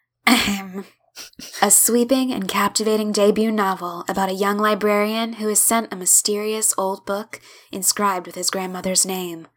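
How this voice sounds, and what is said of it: Put-on narrator reading voice. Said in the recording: “my narrator voice”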